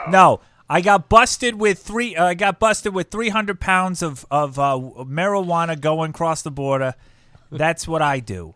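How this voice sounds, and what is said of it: Bad put-on Boston accent. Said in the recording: “That's a terrible Boston accent. That was awful.”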